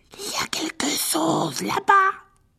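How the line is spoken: Hoarse voice. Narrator (French): dit Ron d'une voix rauque

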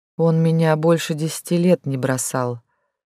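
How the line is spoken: Quiet muffled mumble, calmer. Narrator (Russian): тихонько пробухтела Лис ему в плечо, но в ее голосе уже не было такого страха и отчаяния

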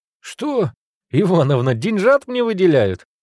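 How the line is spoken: Joyful question, young man. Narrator (Russian): радостно вопросил вихрастый парень

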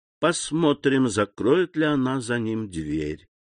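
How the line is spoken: Muttering. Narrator (Russian): пробормотал он

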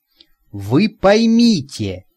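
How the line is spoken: Excited rapid chatter. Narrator (Russian): взволнованно застрекотала она

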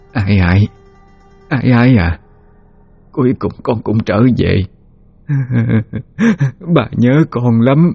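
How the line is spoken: Stammering old woman. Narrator (Vietnamese): Bà miệng lắp bắp nói

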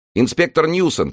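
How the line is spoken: Shouting in chorus. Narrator (Russian): кричали они

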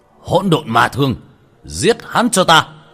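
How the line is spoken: Shouted. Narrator (Vietnamese): Hắn quát lên

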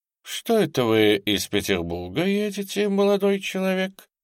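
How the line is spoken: Gentle, kind. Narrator (Russian): сказал он, ласково обращаясь к Володе

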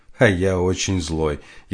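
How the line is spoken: Almost laughing. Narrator (Russian): едва не рассмеялся Дальский

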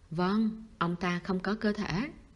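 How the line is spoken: Plain. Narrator (Vietnamese): chú Húc đáp

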